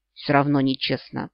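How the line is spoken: Displeased grumble. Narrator (Russian): Буркнула она недовольно

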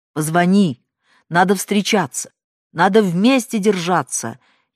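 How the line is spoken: Shouted again. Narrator (Russian): еще раз крикнул

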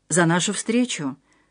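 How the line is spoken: Quiet repetition. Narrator (Russian): тихо повторил Отто

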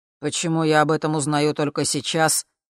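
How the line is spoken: Gloomy, security head. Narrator (Russian): мрачно сказал глава комитета безопасности

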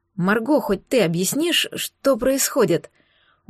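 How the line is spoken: Tired question. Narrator (Russian): Устало поинтересовалась

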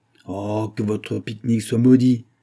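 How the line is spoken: Exclaimed. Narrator (French): s'écria le lieutenant

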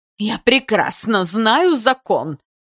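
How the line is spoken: Snapping. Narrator (Russian): огрызнулась Есина

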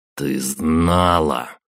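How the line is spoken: Furious growl. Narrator (Russian): прорычал я и, не справившись с гневом

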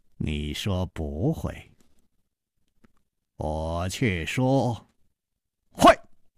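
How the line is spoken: Slow smile. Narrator (Chinese): 楚留香缓缓地笑了

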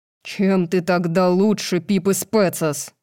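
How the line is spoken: Growling. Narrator (Russian): прорычал Тарион

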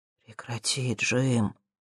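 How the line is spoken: Quiet. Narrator (Russian): тихо произнес Боб

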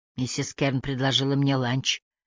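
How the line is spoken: Defensive mumble. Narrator (Russian): промямлил Кадан в свою защиту

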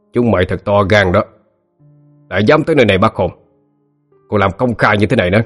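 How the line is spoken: Growling. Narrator (Vietnamese): một kẻ gầm gừ

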